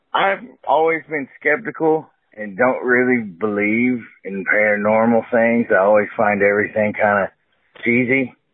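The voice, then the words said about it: Texas accent. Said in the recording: “I'm from Texas, if you couldn't tell by my accent.”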